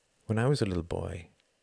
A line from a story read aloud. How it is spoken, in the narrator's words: murmured Tom